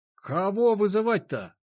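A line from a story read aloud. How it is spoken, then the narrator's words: Shout after someone. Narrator (Russian): крикнул ему вслед Никита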